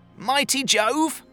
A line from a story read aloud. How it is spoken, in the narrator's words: they cried